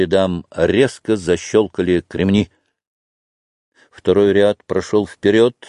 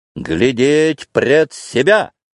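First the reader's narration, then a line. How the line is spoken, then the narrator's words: Wild shout. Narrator (Russian): диким голосом закричал Петр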